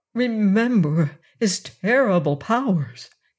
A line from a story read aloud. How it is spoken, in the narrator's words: he pleaded